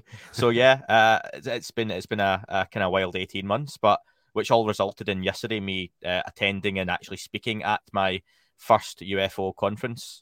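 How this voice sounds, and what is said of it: Speaks with a strong regional accent. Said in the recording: “say that slowly in my accent, ... which no one knows what I'm saying”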